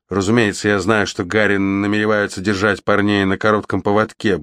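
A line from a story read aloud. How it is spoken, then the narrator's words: Gruff mutter. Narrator (Russian): буркнул он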